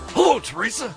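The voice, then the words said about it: Imitates another person's voice. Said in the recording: “my only Father Mitch impression. It's only two words long”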